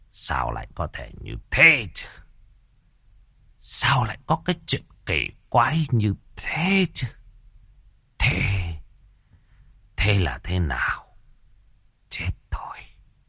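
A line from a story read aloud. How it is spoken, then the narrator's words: Muttering. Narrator (Vietnamese): lẩm bẩm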